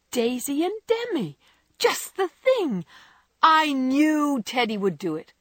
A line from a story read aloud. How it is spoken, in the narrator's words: cried Jo, clapping her hands